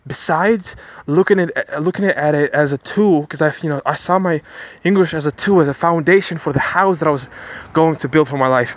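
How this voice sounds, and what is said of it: American-sounding English accent. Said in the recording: “mainly my speaking accent is kind of American”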